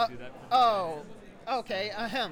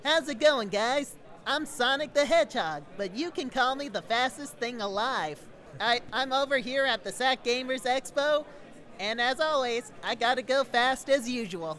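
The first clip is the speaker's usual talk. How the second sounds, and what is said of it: Jaleel White's Sonic the Hedgehog voice. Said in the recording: “a pretty good uh, Jaleel White Sonic impersonation”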